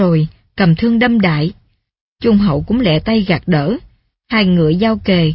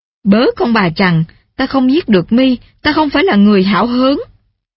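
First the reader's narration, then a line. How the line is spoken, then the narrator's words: Furious loud scolding. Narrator (Vietnamese): Tiết Côn phần phần nổi giận, mắng hét âm xòm, nói rằng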